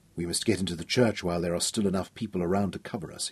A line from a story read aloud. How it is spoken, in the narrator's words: he whispered